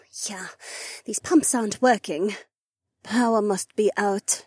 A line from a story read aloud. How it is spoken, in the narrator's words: Heiwan sighed